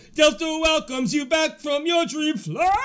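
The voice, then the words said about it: Imitates another person's voice. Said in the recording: “brings out his best Ethel Merman impression”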